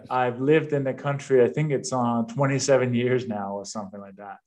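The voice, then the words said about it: Slight Danish accent. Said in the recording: “I have a little bit of an accent. I was born and raised in Denmark.”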